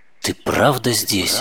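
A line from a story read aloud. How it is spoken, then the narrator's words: Quiet whisper. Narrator (Russian): Она тихо прошептала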